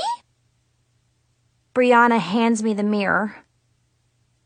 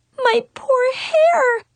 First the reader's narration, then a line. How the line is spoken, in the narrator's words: I sobbed